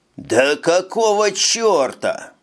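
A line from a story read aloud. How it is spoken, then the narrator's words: Furious possessive roar. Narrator (Russian): взревел Вовчик, не терпевший никакого покушения на свою собственность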